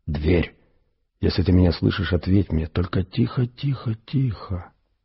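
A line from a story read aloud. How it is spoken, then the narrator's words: Whispered. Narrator (Russian): прошептал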